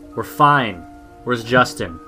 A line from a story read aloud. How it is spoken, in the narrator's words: I yelled